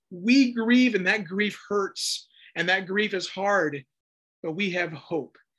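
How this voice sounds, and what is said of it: Emotional, choked-up voice. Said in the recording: “I got a little bit emotional there”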